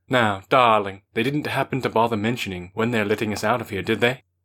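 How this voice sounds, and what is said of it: Faux posh London accent. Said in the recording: “In an evidently faux posh Londoner accent, he inquired,”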